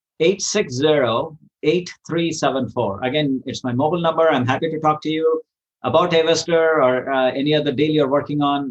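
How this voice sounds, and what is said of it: Speaks with a noticeable accent. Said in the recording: “my accent sometimes is”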